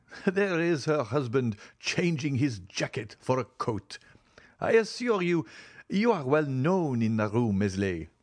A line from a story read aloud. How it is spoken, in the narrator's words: said Maximilian, laughing